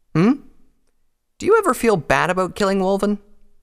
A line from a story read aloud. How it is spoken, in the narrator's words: Scarlet scoffed